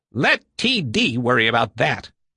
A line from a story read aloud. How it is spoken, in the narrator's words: Pethel said savagely